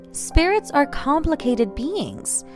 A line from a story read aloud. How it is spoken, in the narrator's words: she said in a cinematic medium voice